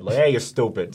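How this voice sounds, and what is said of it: Put-on New Jersey accent. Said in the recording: “it's usually like a Jersey accent plays in my head”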